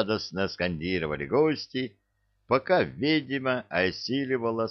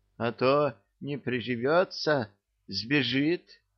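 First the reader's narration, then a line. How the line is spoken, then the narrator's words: Frightened addition. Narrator (Russian): испуганно добавил Гена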